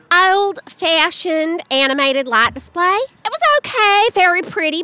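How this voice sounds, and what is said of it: Reads in a funny voice. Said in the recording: “Bad Reviews Read in a Funny Voice”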